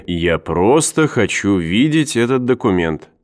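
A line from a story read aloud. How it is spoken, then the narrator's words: Calm. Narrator (Russian): спокойно произнес Кеннер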